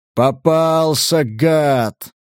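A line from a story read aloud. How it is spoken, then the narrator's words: Joyful roar. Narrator (Russian): Радостно проревел он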